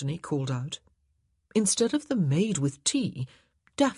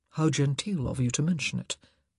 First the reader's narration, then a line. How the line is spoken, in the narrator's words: Simon murmured